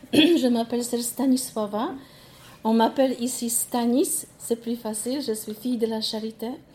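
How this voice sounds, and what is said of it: Polish accent speaking French. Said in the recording (French): “moi aussi j'ai mon accent. Mon accent vient de Pologne.”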